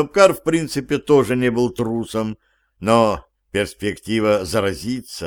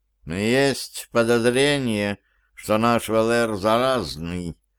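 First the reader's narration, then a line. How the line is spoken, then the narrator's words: Quiet reply. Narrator (Russian): так же тихо ответил кот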